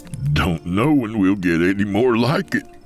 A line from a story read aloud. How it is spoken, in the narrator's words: he said, doubling over laughing